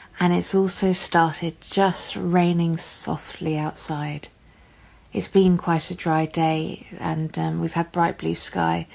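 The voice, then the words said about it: English accent. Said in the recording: “as you can probably guess from my accent, I am based in England and in London”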